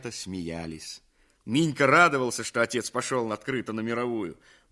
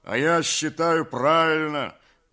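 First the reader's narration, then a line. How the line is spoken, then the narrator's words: Deep bass voice. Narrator (Russian): басил Кондрат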